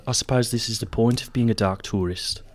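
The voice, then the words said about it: Whispery New Zealand accent impression. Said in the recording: “good impression... doing like, New Zealand accent... That's kind of South African... I like going kind of whispery”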